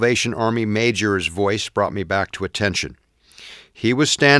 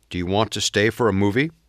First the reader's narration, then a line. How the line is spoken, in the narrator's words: I asked C